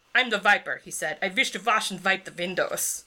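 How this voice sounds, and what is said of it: Reads aloud in an accent. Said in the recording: “with your accent added”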